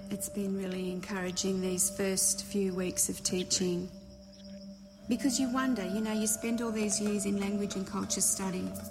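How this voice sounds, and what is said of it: Australian accent. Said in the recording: “They are Australian, so you're going to hear a little bit of an accent”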